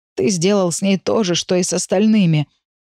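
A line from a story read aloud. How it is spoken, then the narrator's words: Lost, hoarse. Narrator (Russian): Потерянно хрипит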